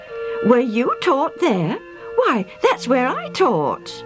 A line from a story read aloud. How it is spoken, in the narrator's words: The older man exclaimed